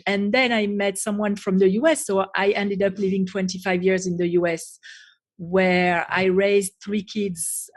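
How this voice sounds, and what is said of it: Strong French accent. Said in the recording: “I can't hide where I'm from because the accent is so strong. So originally I was born and raised in France”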